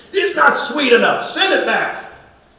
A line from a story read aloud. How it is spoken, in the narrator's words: he yelled to his assistant